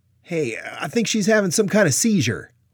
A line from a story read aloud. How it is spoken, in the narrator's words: one of the soldiers mistakenly called out